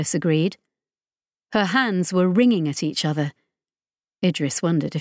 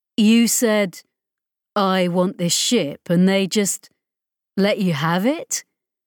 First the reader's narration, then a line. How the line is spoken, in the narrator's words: Chris said slowly